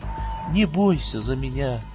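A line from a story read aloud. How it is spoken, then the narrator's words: Soft quiet voice. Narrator (Russian): негромко сказала девушка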